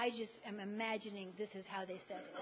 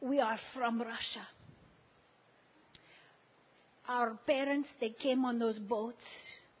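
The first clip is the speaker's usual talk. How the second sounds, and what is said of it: Put-on Russian accent. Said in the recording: “I'm adding this accent. She didn't have the accent.”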